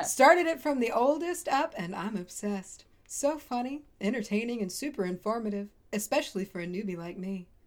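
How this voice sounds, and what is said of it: Smooth public-radio announcer voice. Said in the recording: “I like the NPR voice, by the way.”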